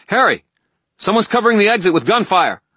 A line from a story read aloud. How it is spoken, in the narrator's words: she called